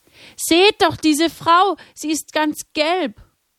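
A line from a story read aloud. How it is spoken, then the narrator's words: Frightened scream. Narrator (German): Erschrocken schrie jemand auf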